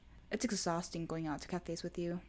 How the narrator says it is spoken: Kaido sighed

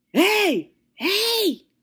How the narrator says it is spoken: This man starts yelling, okay, yelling, bruh, hard down yelling

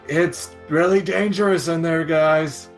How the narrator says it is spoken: I yell really loud

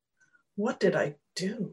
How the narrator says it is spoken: muttered

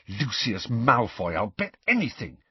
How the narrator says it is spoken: said Harry in a low, furious voice

